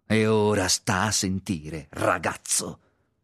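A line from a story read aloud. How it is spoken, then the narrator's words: Angry tone. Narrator (Italian): disse in tono adirato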